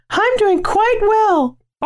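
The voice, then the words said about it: Put-on girl's voice. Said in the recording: “why'd you do it in that voice? ... I'm a girl now.”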